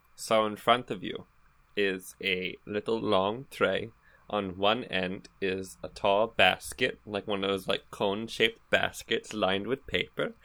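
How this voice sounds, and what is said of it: Speaking in a character voice. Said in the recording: “why are you in character voice? ... Because I'm using my Helen's voice too, for added pizzazz”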